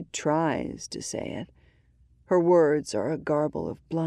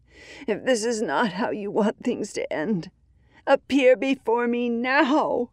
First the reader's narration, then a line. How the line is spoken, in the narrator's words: cries out, desperate